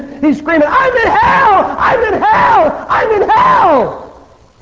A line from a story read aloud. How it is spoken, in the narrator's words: he's screaming